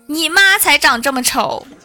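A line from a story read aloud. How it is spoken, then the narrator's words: Angry outburst, shouting. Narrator (Chinese): 有个同学爆发了，大喊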